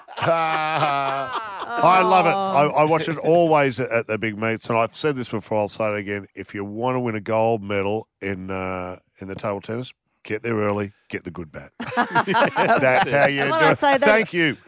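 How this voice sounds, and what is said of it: Matt Preston impression. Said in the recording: “That's almost a very good Matt Preston impersonation”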